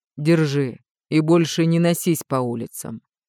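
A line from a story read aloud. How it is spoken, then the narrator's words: Stern. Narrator (Russian): строго произнес Реймунд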